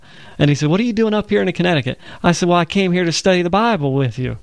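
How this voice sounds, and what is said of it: Deep Southern accent. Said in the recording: “I had this deep Southern accent ... I'm from Alabama”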